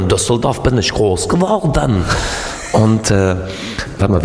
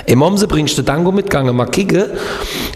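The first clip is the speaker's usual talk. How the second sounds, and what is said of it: Put-on regional Baden dialect. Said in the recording (German): “wie geht nochmal Kehl am Rhein, wo ich gelebt habe?”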